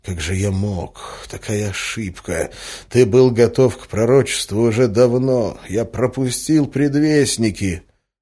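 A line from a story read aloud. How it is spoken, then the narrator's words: Teacher's quiet mutter while walking. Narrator (Russian): учителем, который тихо бормотал на ходу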